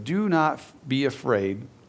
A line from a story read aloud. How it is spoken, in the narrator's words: Jesus says